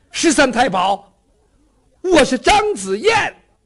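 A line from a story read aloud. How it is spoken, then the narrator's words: Urgent shout. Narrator (Chinese): 张子燕情急之下喊了一声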